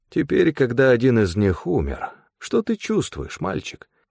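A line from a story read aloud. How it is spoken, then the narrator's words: Insinuating question. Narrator (Russian): вкрадчиво поинтересовался Стефан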